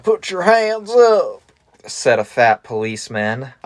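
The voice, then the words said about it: Put-on Texan accent. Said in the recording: “I'm going with the... Texan.”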